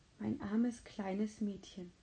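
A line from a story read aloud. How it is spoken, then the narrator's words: Whisper. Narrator (German): flüsterte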